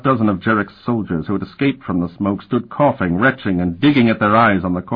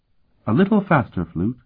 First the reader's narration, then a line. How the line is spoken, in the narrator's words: Sophronia said quite calmly